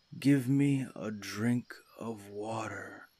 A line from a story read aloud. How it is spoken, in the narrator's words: he moaned